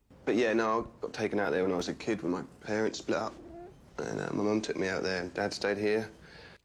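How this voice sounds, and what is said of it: Australian English accent. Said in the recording (Chinese): “Betty 已经听出来他的澳洲口音了”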